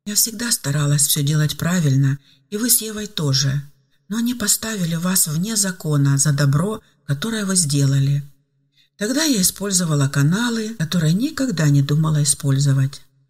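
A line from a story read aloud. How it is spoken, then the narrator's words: Old woman sighing. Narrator (Russian): вздохнула пожилая женщина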